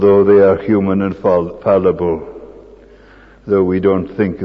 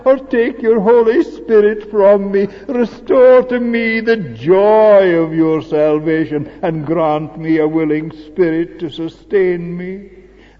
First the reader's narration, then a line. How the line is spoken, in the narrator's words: cried